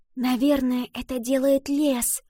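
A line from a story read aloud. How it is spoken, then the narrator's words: Whisper. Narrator (Russian): прошептала Ива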